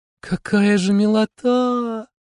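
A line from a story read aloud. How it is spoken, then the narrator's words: Fond drawl. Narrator (Russian): протянула Ромашка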